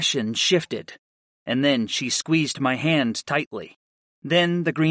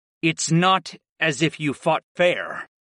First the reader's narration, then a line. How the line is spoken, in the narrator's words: growled